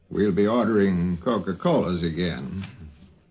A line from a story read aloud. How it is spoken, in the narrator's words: Carl said in his slow drawl